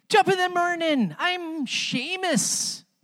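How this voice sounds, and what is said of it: Attempted Irish accent. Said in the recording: “I've been working on my Irish accent... That's about as good as I got”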